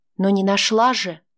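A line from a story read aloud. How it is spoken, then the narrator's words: Soft objection. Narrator (Russian): мягко возразила Лада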